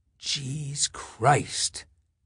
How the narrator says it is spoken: the second whispered

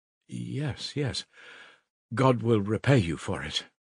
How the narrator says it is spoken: faltered Sonya

